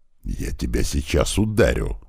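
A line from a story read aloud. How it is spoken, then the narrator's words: Hissed. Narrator (Russian): зашипел на него Туман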